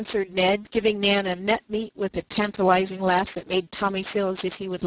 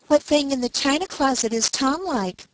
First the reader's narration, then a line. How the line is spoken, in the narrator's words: cried Ned